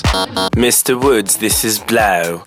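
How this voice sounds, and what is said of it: Poor attempt at British accent. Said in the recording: “No, that's horrible. I can't do a British accent.”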